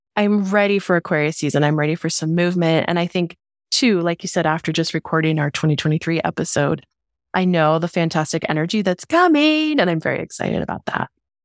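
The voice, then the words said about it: Sick voice from a cold, moody. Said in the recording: “I've caught myself a little stress cold. And while my voice sounds extra moody today”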